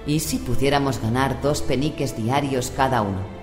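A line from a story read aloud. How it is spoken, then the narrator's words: Low voice. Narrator (Spanish): Wulfric empezó a decir en voz baja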